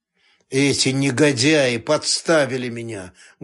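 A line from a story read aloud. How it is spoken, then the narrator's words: Muffled speech. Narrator (Russian): глухо сказал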